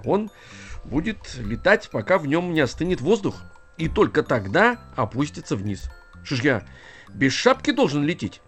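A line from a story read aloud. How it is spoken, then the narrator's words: Offended question. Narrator (Russian): обиженно спросил Растеряйка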